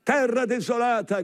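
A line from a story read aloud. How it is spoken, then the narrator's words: Shout. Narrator (Italian): grida Erasmo da Rotterdam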